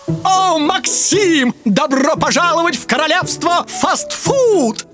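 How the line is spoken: Shouting. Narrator (Russian): прокричала пачка чипсов

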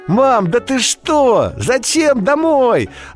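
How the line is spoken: Joyful exclamation. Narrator (Russian): радостно воскликнула Даша

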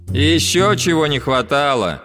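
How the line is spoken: Rude girl's voice. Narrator (Russian): грубо сказала девочка

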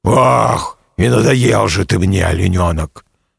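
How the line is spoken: Grumbling tiger. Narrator (Russian): проворчал тигр

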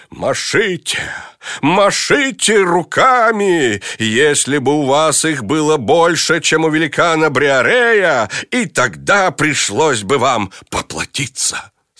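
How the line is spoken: Exclaiming. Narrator (Russian): Дон Кихот воскликнул

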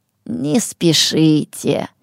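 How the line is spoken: Soft. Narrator (Russian): мягко сказал Хумо Хартум

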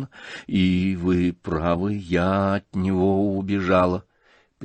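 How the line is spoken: Barely audible. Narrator (Russian): прибавила она едва слышно

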